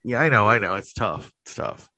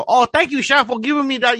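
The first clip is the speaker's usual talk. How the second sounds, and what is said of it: Exaggerated swampy Louisiana accent. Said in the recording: “they all talk with an accent ... it's a terrible accent too ... they all sound like swamp people ... no, I don't fucking talk like that”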